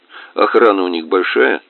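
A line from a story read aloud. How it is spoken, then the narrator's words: Plain. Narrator (Russian): спросил меня Кныш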